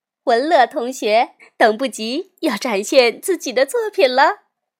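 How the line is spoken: Smiling, cheerful. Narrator (Chinese): 夏一老师笑眯眯地说

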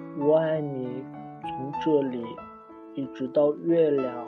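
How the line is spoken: Sleepy murmur. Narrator (Chinese): 小兔子闭上了眼睛，在进入梦乡前喃喃道

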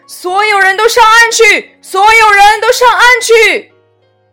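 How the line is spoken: Shouting. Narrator (Chinese): 救生员大喊道

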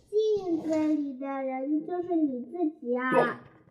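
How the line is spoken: Can't help speaking. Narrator (Chinese): 河马妈妈来了，她听见小河马说着嘲说嘲着嘲笑自己的话，忍不住说

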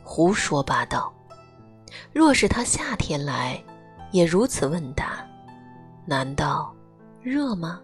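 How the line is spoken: Amused laughter. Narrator (Chinese): 李敖忍俊不禁，笑了几声

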